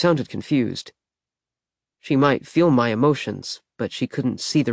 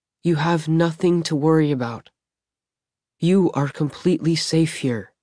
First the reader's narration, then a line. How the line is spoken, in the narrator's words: said in a soothing voice